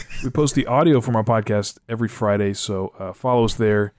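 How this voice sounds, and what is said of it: Hoarse, worn-out voice. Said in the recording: “I'm losing my voice. How long have we been going?”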